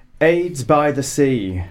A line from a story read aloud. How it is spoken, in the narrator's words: exclaimed Grace